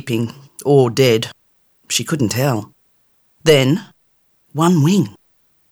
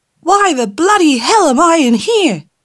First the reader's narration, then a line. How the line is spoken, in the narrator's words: it shouted